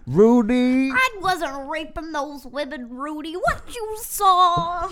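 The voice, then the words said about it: Imitates another person's voice. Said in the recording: “I feel like I have a pretty good Bill Cosby impression... For a tiny white girl from Mississippi, yeah, it's pretty good.”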